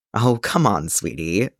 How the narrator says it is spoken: Matt chuckled

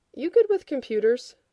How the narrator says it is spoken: Rodney did not bother to contain his scoff

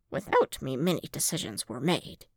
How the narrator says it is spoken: Yoda muttered

